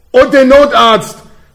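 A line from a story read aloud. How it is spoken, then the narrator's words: Very loud roar. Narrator (German): brüllte er so laut, dass Babe wieder zu Bewusstsein kam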